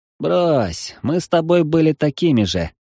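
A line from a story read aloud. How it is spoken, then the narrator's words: Chuckling. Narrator (Russian): хохотнул Юринарий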